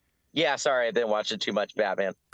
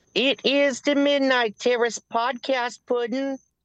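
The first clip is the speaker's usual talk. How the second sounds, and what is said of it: Harley Quinn impression. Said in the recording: “you're Harley Quinn tonight? ... that impression was actually pretty spot on”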